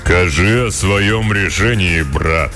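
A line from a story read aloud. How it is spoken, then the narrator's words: Booming voice, stout man. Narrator (Russian): прогудел тучный и низкорослый кудесник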